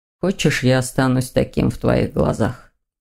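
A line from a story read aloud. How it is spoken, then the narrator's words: Quiet, shaken. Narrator (Russian): Этот вывод потряс Дамиана, и он тихо произнес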